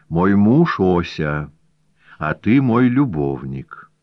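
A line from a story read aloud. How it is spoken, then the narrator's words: Even, insistent voice. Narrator (Russian): Лилия Юрьевна ровным голосом внушала ему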